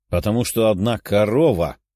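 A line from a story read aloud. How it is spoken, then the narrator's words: Grumbling. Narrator (Russian): Даша начала ворчать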